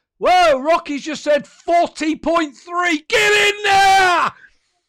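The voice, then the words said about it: Excited shouting into microphone. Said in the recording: “Sorry for shouting at the microphone.”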